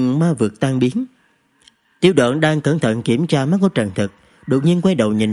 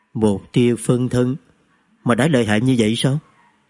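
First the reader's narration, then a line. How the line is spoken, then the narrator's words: Muttering. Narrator (Vietnamese): Chú Thứ Tài lẩm bẩm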